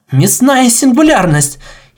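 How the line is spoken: Giggling. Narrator (Russian): хихикнула Шифра

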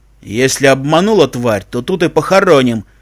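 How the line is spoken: Harsh bark. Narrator (Russian): рявкнул человеческий голос

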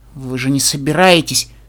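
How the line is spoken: Frightened, breaking off. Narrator (Russian): Начала Твайлайт и испуганно уставилась на предводительницу, не договорив

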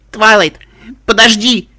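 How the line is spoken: Shouting after someone. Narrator (Russian): кричала я вслед исчезающему Аликорну

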